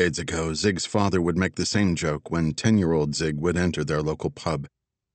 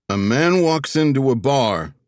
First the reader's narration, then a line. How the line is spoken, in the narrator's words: Zig called out